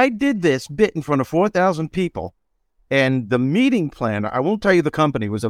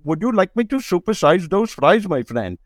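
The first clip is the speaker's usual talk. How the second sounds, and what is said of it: Impression of an Indian accent. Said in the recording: “That's the way he sounded ... making fun of people from India ... it was an impression”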